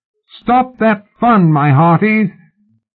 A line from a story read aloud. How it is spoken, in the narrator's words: His howl echoed down the brickwork canyon